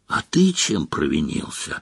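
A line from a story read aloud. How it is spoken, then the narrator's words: Whispered question. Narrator (Russian): шепотом спросил Рон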